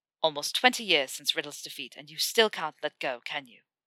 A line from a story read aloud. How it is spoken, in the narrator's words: She spluttered, but caught herself quickly